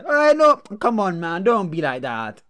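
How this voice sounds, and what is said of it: Imitates another person's accent. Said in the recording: “that was his accent ... It was his accent.”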